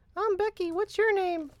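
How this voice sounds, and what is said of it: Put-on girl character voice. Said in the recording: “I'll do the girl voice.”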